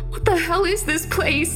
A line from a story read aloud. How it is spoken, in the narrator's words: Maya cried